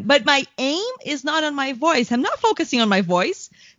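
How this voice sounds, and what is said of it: Very high-pitched voice. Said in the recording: “where did my voice go now? It's totally high.”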